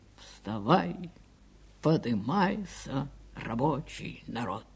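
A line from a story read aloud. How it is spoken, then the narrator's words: Quiet singing. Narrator (Russian): тихо запел Павел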